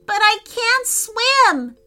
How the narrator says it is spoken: cried Declan

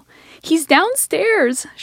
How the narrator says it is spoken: shrieked

